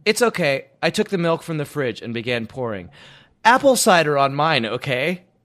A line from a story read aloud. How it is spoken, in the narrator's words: Sharon said